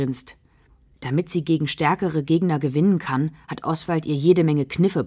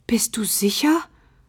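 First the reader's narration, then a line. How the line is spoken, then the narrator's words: Anxious question. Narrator (German): fragt Loretta ängstlich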